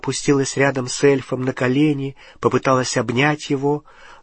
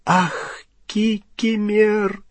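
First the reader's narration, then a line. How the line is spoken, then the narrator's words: Tearful moan. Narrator (Russian): простонала расплакавшаяся Гермиона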